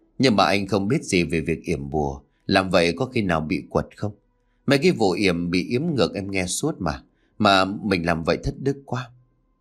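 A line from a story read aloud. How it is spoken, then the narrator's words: Sighing. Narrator (Vietnamese): Hải thở dài một tiếng rồi nói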